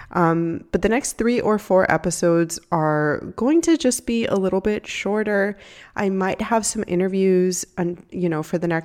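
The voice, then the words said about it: Congested, stuffy-sounding voice. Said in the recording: “I had a sore throat, now I'm congested ... I'm still a little congested, so if you hear that in my voice ... if you hear my voice sound the way that it does”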